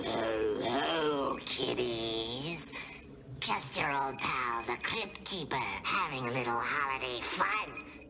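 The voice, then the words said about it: Raspy creepy character voice. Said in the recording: “his voice was a little more raspy”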